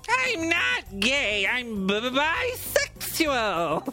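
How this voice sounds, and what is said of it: Cartoon bee character voice. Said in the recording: “My impression of the Honey Nut Cheerio bee. Not very good, I know.”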